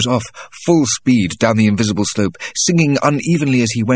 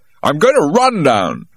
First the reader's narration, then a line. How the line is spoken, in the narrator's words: interrupted himself to shout